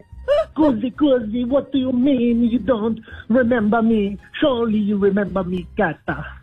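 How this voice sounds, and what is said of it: Exaggerated Italian accent. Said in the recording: “the accent's a little bit different from what I remember. It was more of an international accent, not quite so Italian.”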